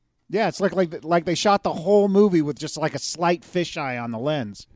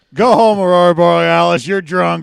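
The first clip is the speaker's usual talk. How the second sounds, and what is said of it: Drunk-sounding character voice. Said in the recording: “my impression of a drunk Aurora”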